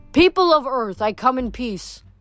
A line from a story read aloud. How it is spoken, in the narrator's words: he shouted